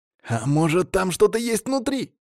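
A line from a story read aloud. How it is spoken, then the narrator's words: Excited exclamation. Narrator (Russian): азартно воскликнул первый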